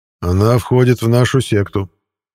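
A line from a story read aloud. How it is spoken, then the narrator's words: Smirking grunt. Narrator (Russian): хмыкнул я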